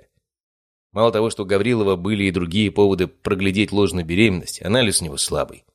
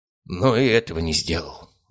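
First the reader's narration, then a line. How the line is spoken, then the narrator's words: Sighing. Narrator (Russian): вздохнул он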